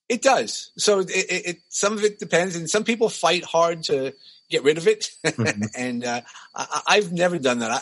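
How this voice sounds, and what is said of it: New York accent. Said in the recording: “speaking of accents, how does the New York accent vary ... my accent isn't as bad as some of the other people that I've grown up with ... I know I do.”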